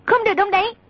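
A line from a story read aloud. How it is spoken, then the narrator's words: Sharp command. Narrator (Vietnamese): A Tử quát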